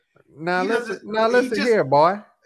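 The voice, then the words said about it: Cartoon Kentucky bluegrass Southern accent. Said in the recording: “He talks in a Kentucky wild, Kentucky bluegrass accent.”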